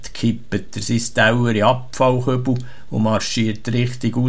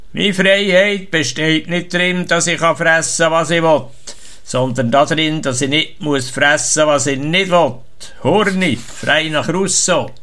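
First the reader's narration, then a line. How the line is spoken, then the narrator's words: Loud statement. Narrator (German): sagt laut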